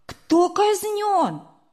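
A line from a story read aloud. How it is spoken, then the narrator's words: Sudden exclamation. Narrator (Russian): вдруг Сережа воскликнул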